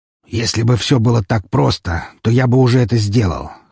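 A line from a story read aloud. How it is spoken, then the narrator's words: Snorting grunt. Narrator (Russian): хмыкнул он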